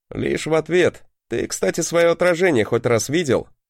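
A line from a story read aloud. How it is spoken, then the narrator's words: Snorting. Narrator (Russian): хмыкнул я на это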